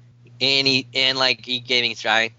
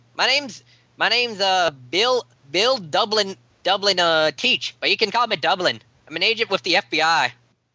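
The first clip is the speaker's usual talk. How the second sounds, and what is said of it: Put-on Irish accent. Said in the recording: “you have an Irish accent.”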